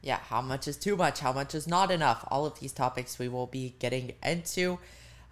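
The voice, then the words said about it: Scratchy, inflamed-throat voice. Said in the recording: “my voice sounds a little bit scratchy. My throat's feeling so inflamed today.”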